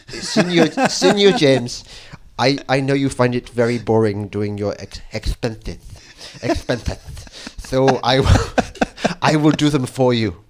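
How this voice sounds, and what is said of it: Weak attempt at Spanish accent. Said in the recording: “No, I can't do a Spanish accent.”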